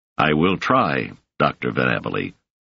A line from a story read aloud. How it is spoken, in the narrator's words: said Legan stiffly